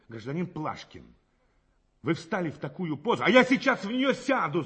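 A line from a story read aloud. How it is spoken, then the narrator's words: Angry interruption. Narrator (Russian): зло перебил задержанный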